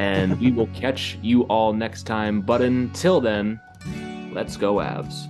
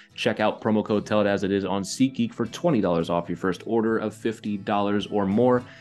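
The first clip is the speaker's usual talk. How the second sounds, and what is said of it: Rapid auctioneer-style delivery. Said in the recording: “Got my auctioneer voice going there.”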